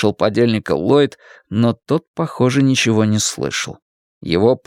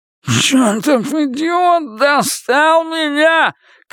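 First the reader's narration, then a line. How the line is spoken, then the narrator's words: Shouted. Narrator (Russian): крикнул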